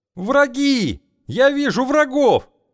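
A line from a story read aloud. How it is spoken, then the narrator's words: Screaming at top of lungs. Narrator (Russian): благим матом заорал наблюдатель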